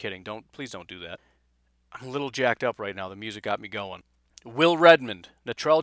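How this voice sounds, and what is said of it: Usual voice. Nothing is said of it.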